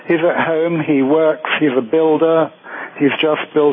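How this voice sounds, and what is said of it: Slight British accent. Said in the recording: “you have a little bit of a British accent there.”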